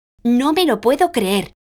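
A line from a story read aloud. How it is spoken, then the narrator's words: Exclaimed. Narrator (Spanish): exclama Rocío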